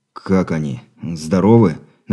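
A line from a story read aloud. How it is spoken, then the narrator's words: Strained, forced out. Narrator (Russian): выдавил из себя Андрей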